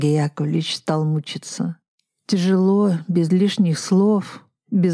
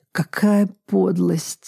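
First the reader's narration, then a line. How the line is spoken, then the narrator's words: Moaning. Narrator (Russian): стонал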